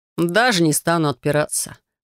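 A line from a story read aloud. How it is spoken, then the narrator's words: Amused snort. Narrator (Russian): хмыкнул наследник Авероса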